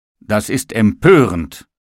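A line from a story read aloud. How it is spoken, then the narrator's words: Table exclaiming. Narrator (German): rief der Tisch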